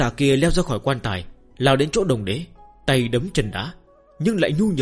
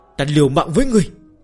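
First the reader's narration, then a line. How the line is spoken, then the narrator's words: Young people wailing together. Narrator (Vietnamese): Những người trẻ tuổi bên dưới đồng loạt gào khóc như chết cha chết mẹ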